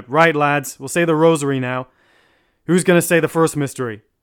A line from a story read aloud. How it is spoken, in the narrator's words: one of the men down the wing called out